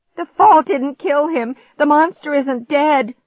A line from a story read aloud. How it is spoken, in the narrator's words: I shrieked